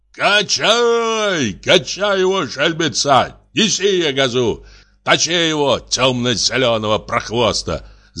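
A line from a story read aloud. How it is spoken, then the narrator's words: Old men shouting. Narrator (Russian): закричали старички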